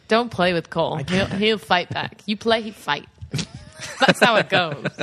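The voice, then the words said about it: Put-on dialect, dropped G's. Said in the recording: “That's your black voice. ... She just drops all the G's off of things.”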